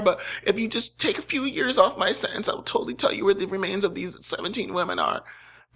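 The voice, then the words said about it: Whiny teenager-like impression voice. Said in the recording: “my impression of Robert Hansen ... He sounds like a whiny pizza-faced teenager”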